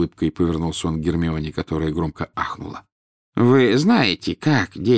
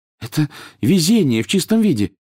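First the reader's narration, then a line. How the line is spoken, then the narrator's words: Excited. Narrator (Russian): взволнованно произнесла Гермиона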